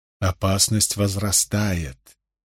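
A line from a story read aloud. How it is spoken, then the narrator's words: Quiet addition. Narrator (Russian): негромко добавила Морейн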